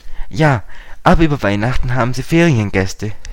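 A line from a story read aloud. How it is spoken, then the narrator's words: Plain. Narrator (German): sagte Dick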